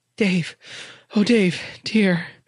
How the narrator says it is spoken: Someone cried out

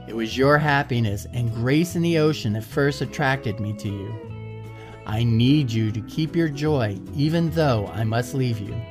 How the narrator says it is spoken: Kalia said

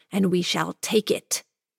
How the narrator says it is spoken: the housekeeper hissed

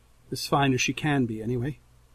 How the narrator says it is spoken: Her tone softens, and she adds

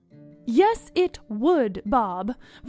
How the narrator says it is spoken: Veronica said firmly

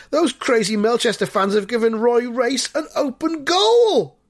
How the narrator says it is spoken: a Highborough fan shouts

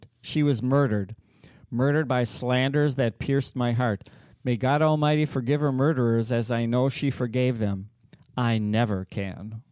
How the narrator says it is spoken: He cried out at the graveside

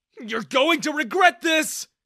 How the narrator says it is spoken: I yelled at Daniel

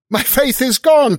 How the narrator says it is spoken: cried he after one stupefied moment

